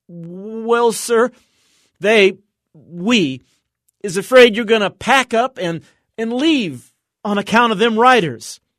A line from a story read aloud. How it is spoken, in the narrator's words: she began in a quavering voice